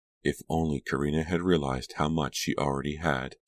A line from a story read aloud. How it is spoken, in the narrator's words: Delia said softly